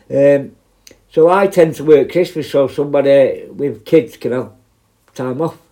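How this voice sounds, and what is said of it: Mancunian accent. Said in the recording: “I'm a Manc. obviously, my, my accent gives it away a little bit.”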